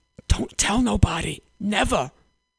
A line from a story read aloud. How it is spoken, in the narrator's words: whispered